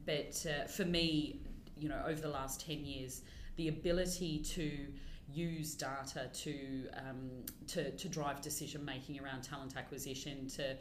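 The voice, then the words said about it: Speaker's own noticeable accent. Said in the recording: “I'll say it again in my accent because I get made fun of every day that I'm at work for saying data.”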